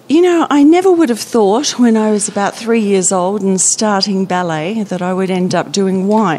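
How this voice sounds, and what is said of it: Slight Australian accent. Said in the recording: “that is an Australian accent that ... you can detect. ... Slight, yes.”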